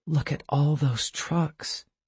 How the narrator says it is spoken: Tessa said softly

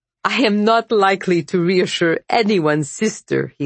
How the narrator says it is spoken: he said, when he stopped laughing

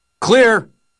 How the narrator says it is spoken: One of them shouted from out in the hallway

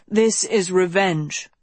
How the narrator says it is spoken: Sophie said coldly

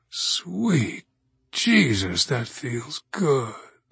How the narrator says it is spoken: he groans

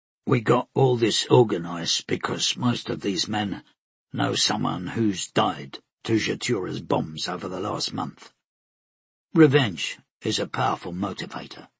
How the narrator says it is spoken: Tenik answering in a low voice

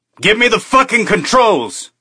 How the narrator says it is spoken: he shouted

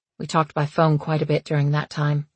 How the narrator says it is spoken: Alex said, smiling sadly at the memory

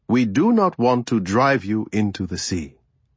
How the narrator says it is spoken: I said

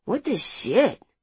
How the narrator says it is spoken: Rodrigo mumbled as he stepped straight into a puddle

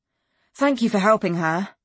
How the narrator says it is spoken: I blurted

